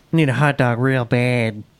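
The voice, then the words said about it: Imitates another person's funny accented voice. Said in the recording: “You got her accent. You got her voice down pretty good. ... She's got a funny voice.”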